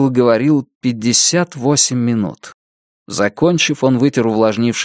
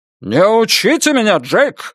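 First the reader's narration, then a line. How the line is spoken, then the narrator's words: Angry bark. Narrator (Russian): сердито рявкнул судья Этли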